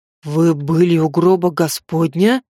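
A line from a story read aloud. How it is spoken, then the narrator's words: Breathless, awed. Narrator (Russian): С придыханием выдохнул купец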